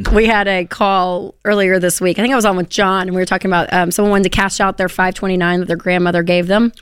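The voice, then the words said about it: Raspy, hoarse voice. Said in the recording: “Raspy voice you've come to know and love... She's got the lozenges working during the break... you may not recognize her voice”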